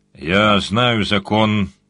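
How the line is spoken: Grumbling. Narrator (Russian): проворчал джин

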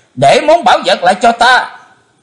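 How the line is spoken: Terrified loud scream. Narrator (Vietnamese): Chí Tôn hết đói kinh hoàng thét lớn

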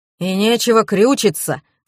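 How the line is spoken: Snorting. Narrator (Russian): фыркнул Дегтярев

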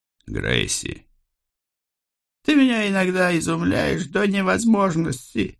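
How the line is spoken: Sighing. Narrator (Russian): вздохнула Фриша

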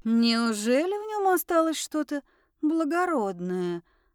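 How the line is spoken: Drawled while savoring. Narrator (Russian): смакуя рыбку, протянула Араделис

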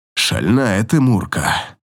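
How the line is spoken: Growling. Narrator (Russian): выдает сквозь рычание

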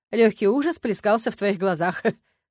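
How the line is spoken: Snorting chuckle. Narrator (Russian): хмыкнул Ленард

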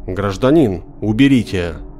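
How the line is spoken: Stern. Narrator (Russian): продавщица сказала ему так строго

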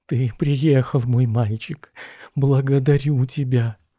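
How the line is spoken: Cautious undertone. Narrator (Russian): опасливо сказал вполголоса

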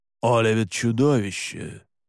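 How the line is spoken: Growling. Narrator (Russian): прорычал Александр

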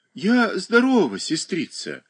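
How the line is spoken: Dejected. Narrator (Russian): как-то уныло ответила Даша

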